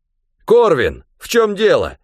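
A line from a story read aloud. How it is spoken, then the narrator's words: Shouted. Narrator (Russian): крикнул Бенедикт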